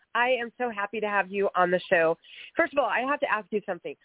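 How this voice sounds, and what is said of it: Congested, stuffed-up voice. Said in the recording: “I have a little cold, so I'm a little stuffed up”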